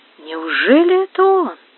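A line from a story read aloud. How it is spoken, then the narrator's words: Whisper. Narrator (Russian): прошептал Тобаль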